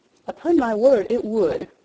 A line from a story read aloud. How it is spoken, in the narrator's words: replied Mary